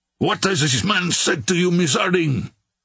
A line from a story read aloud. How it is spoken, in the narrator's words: cried Terrier